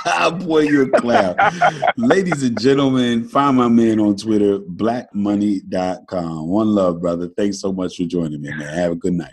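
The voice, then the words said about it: Smooth radio-announcer voice. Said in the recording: “your smooth radio voice”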